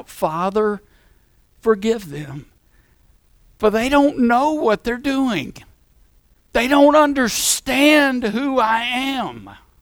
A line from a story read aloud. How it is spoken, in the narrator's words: Jesus, the perfect God-man, when he's being crucified and he cries out